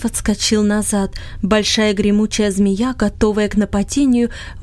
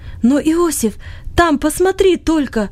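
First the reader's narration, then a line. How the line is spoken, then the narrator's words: Sudden cry. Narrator (Russian): Вдруг вскрикнул он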